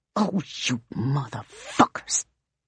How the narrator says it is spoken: she snarls

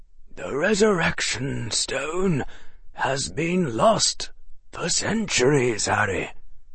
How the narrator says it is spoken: the headmaster said quietly

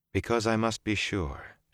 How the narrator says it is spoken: she said gently

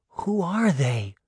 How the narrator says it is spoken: Daphne whispered to her sister

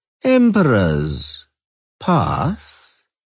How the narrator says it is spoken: drawled Leuwarden

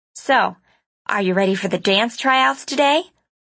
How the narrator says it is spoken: asked cheerfully

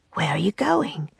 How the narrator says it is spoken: Will whispered

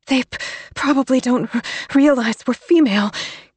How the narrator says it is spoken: gasped Alice

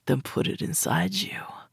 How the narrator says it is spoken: he said gruffly, between clenched teeth

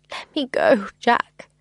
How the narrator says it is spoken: I begged

